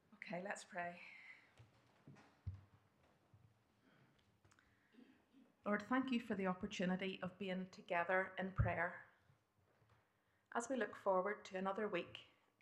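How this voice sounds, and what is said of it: Northern Irish accent. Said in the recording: “you're going to have to listen to a Northern Irish accent again”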